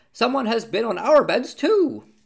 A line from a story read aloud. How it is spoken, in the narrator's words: the others cried